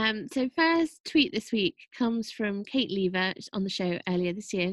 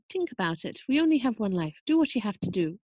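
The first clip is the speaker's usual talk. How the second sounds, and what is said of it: Put-on Irish accent. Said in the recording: “my fantastic Irish accent”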